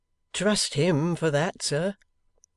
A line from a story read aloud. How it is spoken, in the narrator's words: said Betty cheerfully